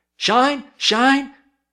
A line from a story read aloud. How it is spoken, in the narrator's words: three little bootblacks gathered where he stood and cried